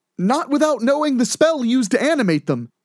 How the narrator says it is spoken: Edward yelled back

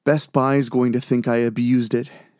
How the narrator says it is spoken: she sighed

